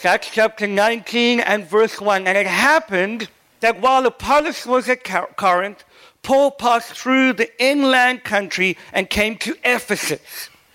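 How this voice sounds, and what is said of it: Mixed South African, English, American accent. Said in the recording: “Please forgive my crazy accent. I'm very confused. I lived in South Africa, lived in England, and now I'm living in Boston. So the accent is all over the place.”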